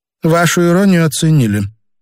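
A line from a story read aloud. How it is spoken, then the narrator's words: Gloomy. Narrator (Russian): мрачно сказала Елена Казимировна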